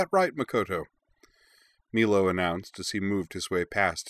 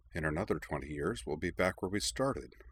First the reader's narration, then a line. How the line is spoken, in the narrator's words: Cora muttered, almost inaudibly